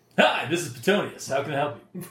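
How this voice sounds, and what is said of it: Announcer-style voice. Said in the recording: “You sound weird over the phone, man... my announcer voice”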